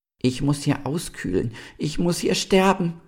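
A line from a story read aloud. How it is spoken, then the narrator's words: Star wailing. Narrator (German): jammerte der Stern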